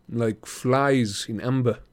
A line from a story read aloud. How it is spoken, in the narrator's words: Jake Mason murmured